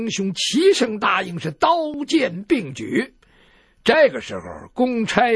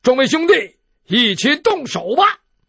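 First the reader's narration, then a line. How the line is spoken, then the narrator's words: Shouting. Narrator (Chinese): 陈家洛……喊说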